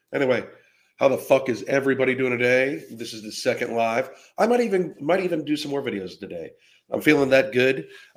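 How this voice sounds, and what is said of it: Raspy voice. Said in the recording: “Excuse the voice. It sounds a little raspy. ... Anything below 70 degrees causes my voice to get like this ... it seemed like I got a little raspy.”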